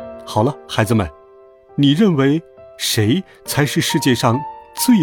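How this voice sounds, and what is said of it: Usual voice. Nothing is said of it.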